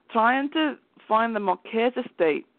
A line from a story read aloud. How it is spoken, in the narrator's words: he said with a southern accent